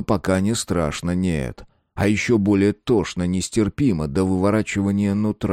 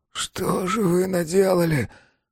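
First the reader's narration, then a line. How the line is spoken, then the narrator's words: Breathless exhale. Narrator (Russian): выдохнул рядом Жеребьев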